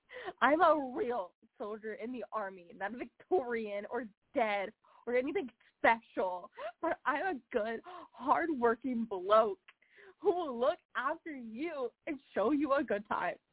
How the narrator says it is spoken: The third be screeched

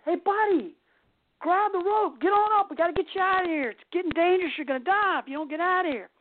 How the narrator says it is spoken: the guy screams

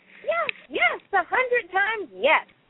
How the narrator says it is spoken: shouted the skunk

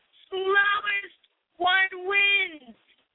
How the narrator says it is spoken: Franklin saw that he was losing and cried out

